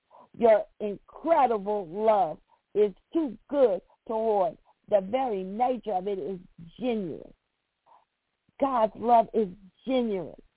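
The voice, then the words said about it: Kentucky accent. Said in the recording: “That Kentucky accent all out.”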